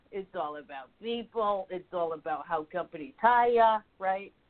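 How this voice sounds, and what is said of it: Put-on New York accent. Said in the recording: “I'm getting my New York accent there for you, okay? We're having some fun on that.”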